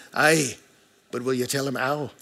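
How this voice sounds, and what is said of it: Weak put-on Scottish accent. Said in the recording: “I believe she was Scottish ... I don't have a good Scottish accent”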